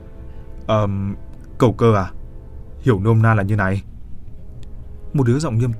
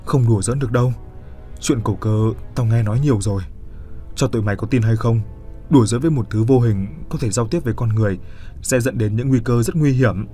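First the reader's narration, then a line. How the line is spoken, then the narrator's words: Trembling voice. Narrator (Vietnamese): Nó run run bảo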